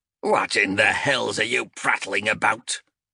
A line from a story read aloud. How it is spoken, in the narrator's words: he snarled